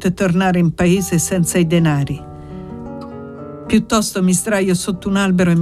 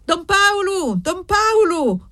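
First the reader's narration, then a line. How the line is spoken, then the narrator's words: Panting, tired man shouting. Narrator (Italian): gridava l'uomo ansante e stanco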